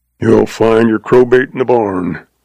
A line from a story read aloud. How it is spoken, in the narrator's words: grumbled old Moss